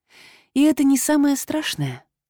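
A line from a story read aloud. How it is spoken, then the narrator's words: Breathy exhale. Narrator (Russian): выдохнула я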